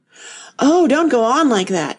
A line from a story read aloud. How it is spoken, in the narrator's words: cried the poor Queen in despair